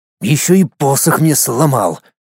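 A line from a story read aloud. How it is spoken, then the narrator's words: Irritated. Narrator (Russian): раздраженно добавил маг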